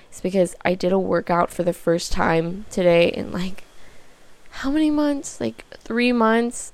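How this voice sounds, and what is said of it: Tired, abnormal-sounding voice. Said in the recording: “I'm so tired and my voice is, like, totally not normal sounding ... So I am just totally exhausted.”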